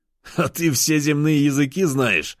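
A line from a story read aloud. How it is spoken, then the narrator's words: Laughing. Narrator (Russian): рассмеялся я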